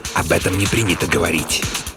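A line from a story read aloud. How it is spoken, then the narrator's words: Sudden drowsy hiss. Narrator (Russian): Стоун, который словно бы задремал, вдруг встрепенулся и прошипел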